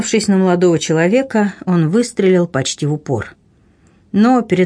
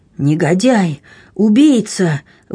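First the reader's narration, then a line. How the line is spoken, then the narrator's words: Horrified exclamation. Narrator (Russian): в ужасе воскликнул Алане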